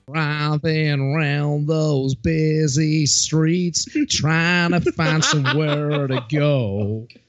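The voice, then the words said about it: Imitates another person's singing voice. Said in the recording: “that was my best Jeff Jarrett singing impression.”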